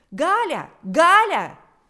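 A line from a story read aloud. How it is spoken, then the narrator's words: Shrill shout. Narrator (Russian): закричал пронзительный голос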